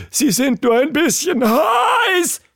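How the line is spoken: Screamed at breaking point. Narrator (German): schrie sie, als sie es schließlich nicht mehr aushalten konnte

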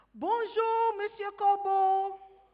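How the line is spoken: Shouted. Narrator (French): Il cria

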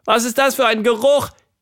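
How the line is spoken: Squeaking. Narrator (German): quiekte sie

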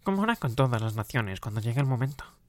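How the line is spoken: Nasal voice. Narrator (Spanish): dijo el otro con voz nasal

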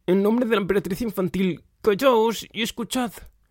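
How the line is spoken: Shouting as loud as possible. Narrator (Spanish): Atreyu gritó, tan fuerte como pudo

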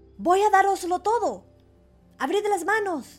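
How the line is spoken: Shouting with all strength. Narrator (Spanish): Entonces Pulgarcito se puso a gritar con todas sus fuerzas

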